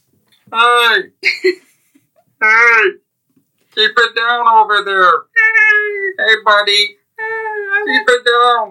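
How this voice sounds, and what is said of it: Funny character voice. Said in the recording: “this is my new favorite funny voice to do”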